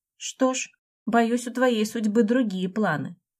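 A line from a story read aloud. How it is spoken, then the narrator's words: Smirking little dragon. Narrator (Russian): хмыкнул дракончик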